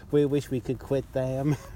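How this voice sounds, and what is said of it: Bad put-on American accent. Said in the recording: “That was the worst American accent.”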